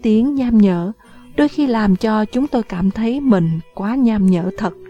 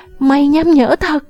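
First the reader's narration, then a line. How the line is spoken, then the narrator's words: Shouting. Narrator (Vietnamese): Phi Phi hét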